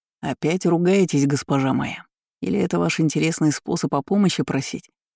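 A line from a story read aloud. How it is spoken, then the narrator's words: Wry snort. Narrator (Russian): хмыкнул Неждан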